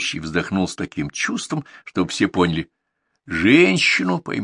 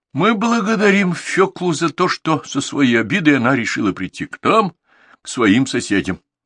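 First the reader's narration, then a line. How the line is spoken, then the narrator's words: Sighing. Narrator (Russian): снова вздохнул ведущий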